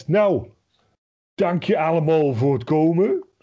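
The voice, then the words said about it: Put-on Utrecht accent. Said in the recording (Dutch): “zo'n afscheidsspeech volledig in een Utrechts accent”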